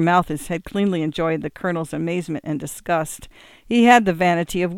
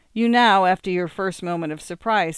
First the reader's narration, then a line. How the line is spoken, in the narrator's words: said he